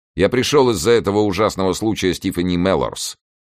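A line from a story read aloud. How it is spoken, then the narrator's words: Plain. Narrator (Russian): сказал Кросби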